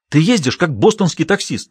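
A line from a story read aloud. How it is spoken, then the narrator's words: Indignant exclamation. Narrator (Russian): негодующе воскликнула Джулия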